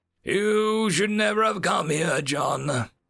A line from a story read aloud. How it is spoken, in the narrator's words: Darth Ominous wheezed